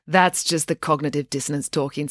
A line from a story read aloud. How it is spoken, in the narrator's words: said Loretta